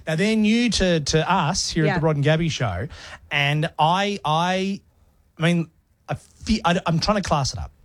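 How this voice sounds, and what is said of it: Broad Australian accent. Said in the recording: “my Ocker accent”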